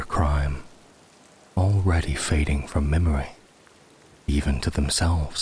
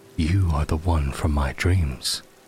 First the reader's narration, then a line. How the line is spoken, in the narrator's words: the Emperor said, his voice a low tremor of certainty